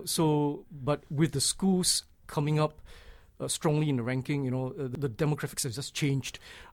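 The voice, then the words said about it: Singaporean accent. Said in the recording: “you've clearly got an accent yourself ... Singapore, where I come from”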